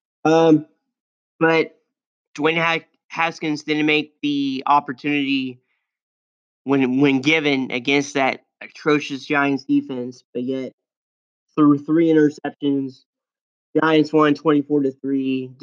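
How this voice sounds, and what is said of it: Sick, rough-sounding voice. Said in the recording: “my voice is bad. ... I'm just sick.”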